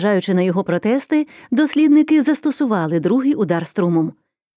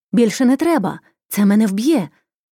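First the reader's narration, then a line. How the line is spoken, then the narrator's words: Patient crying out. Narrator (Ukrainian): пацієнт вигукнув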